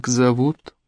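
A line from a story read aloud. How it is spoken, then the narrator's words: Muttered. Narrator (Russian): Он пробормотал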